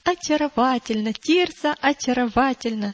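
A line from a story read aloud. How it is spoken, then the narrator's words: Delighted exclamation. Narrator (Russian): восторженно воскликнула Уда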